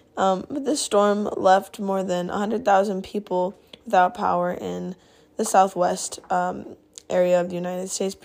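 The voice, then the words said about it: Strained, worn-out voice. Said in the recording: “my voice is kind of shot right now”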